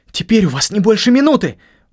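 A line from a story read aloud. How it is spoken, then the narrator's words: Sudden cry. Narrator (Russian): вскрикнул я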